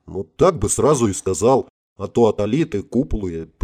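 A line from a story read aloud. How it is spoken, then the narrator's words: General grumbling. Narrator (Russian): проворчал генерал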